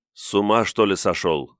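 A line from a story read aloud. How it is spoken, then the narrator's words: Calm. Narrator (Russian): спокойно сказал я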